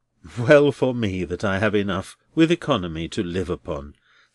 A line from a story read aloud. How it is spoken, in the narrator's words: sighed Neville, half wearily and half cheerily